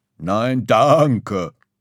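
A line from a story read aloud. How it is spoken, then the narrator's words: Growl. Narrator (German): knurrte Schaf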